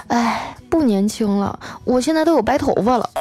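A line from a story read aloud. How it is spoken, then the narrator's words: Glum whining. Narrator (Chinese): 丸子就哭丧着脸说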